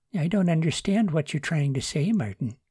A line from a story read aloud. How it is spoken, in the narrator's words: Joni said, quietly puzzled